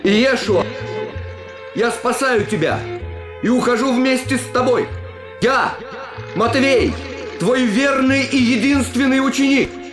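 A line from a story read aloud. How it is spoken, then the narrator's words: Shout. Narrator (Russian): крикнув ему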